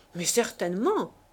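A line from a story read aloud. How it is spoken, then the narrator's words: Exclaimed. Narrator (French): s'écria le jeune homme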